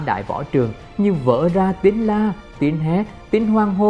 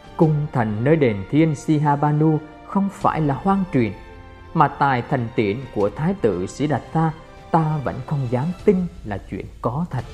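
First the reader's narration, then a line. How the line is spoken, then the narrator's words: Softly uttered. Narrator (Vietnamese): ngài khẽ thốt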